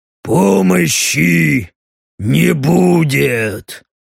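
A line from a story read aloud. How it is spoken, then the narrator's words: Deep growling voice. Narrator (Russian): Утробным рычащим голосом сказал ему Стриж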